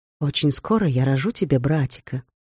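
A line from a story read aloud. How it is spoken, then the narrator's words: Whisper. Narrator (Russian): шепнула она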